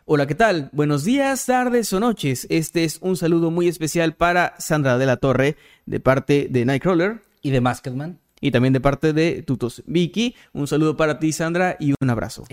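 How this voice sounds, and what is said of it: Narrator voice. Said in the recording (Spanish): “con voz de narrador”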